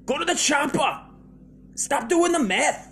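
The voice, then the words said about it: Action-hero impression sounding Irish. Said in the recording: “I don't know why he's got an Irish accent ... It still sounds Irish, dude. I can't get the fucking Irish out of me.”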